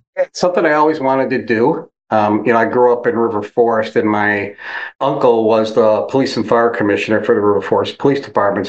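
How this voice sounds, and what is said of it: Chicago accent. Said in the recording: “you sound like you got a good Chicago accent”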